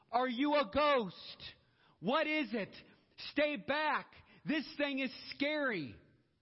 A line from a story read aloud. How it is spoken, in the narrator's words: the disciples are shouting